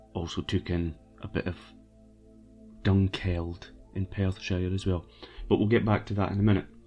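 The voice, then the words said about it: Scottish accent. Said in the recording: “not Scotland, as my accent would suggest I am from, and that accent suggestion is indeed correct”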